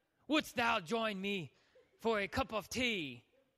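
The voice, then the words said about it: Put-on British accent. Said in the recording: “you speak in a British accent ... He's got that British accent.”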